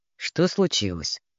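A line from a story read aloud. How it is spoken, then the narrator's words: Plain. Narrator (Russian): спросил он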